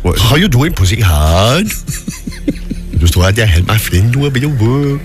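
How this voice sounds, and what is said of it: Welsh accent with continental wobble. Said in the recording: “I love the way your Welsh accent goes. There's always a little bit of a wobble there that goes a little bit more continental”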